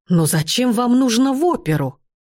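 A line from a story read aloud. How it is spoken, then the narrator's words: Dramatic exclamation. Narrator (Russian): воскликнул он, драматически ломая руки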